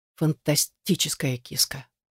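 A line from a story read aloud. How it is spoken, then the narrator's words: Soft, quiet. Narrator (Russian): произнес он негромко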